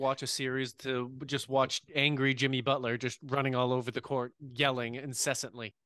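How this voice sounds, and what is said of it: Usual voice. Nothing is said of it.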